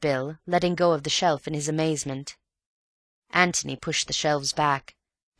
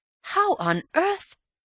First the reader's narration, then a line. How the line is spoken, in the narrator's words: Antony laughed happily